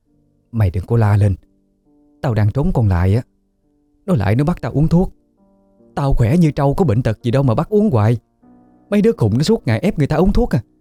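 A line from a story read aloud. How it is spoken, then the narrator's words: Low whisper. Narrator (Vietnamese): bà Hai hạ giọng thì thào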